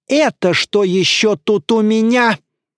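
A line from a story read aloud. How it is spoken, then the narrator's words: Yelling. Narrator (Russian): Она завопила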